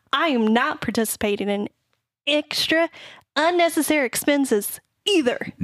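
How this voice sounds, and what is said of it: Imitates another person's voice. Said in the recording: “Are you doing an impression of me? ... Now it sounds more like me.”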